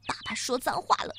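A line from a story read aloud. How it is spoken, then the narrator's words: Mumbling. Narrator (Chinese): 嘟囔着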